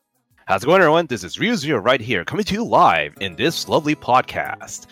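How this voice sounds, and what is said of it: Announcer voice. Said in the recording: “I pretty much have the announcer voice”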